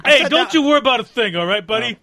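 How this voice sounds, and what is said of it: Tough dock worker voice. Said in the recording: “us doing our dock workers impersonations”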